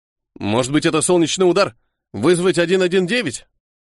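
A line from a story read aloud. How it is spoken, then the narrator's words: Worried voice. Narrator (Russian): спросила беспокойным голосом огромная, словно скала, черная тень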